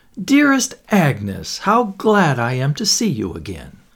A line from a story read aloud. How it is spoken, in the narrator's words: A woman's voice exclaimed